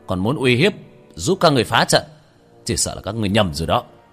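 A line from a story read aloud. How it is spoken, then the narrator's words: Cold shout. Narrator (Vietnamese): Tiểu Thất khí tức quanh người lạnh lẽo, quát lên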